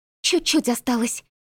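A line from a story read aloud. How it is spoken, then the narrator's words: Barely audible encouragement. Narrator (Russian): еле слышно подбодрила меня Маришка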